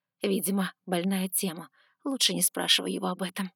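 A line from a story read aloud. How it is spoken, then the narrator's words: Whisper. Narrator (Russian): шепнула она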